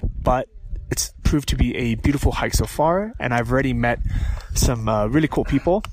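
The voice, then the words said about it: Voice still sounds slightly sick. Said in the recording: “as you can tell by my voice, even though I'm pretty much recovered after a stint of getting sick and needing to take antibiotics, I'm still not 100%”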